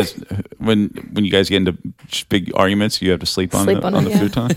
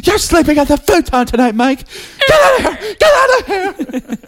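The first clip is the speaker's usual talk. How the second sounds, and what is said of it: Imitates another person's voice. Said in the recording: “It's my impression of you guys fighting.”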